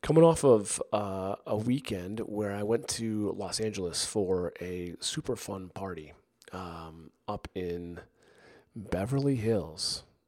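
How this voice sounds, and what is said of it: Strained voice from illness. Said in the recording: “I've been a little under the weather this past week. And my voice is struggling at the moment. Hopefully you can hear me okay.”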